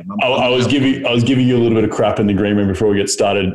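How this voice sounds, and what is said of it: Australian accent. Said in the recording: “the Aussie accent”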